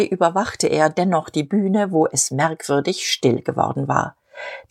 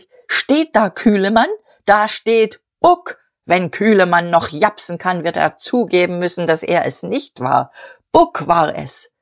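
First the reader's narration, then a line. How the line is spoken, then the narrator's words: Called out. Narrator (German): rief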